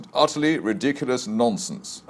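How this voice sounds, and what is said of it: Very strong British accent. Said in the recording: “in a very strong British accent”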